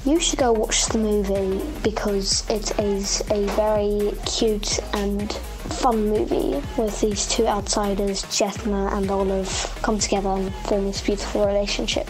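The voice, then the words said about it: Put-on British accent. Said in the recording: “You can say something about the movie in your British accent.”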